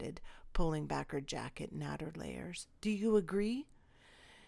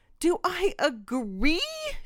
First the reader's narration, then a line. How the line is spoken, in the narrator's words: She shrieked